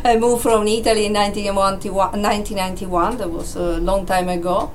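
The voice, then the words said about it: Italian accent. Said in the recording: “I'm originally Italian, you can hear from my accent. ... Got that lovely twang”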